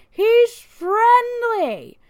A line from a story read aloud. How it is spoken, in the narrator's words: Thor's drunken owner had responded to the woman by refusing to leave, cussing her out and yelling